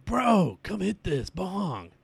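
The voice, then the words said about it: Stoner bro voice, California-ish accent. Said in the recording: “That was your beer impression? ... That sounded like a pothead. ... But it was almost California accent-y.”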